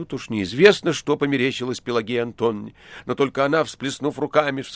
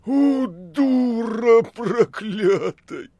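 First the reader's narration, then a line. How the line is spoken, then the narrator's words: Furious wheezing. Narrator (Russian): С глазами, налитыми кровью, Никанор Иванович хрипя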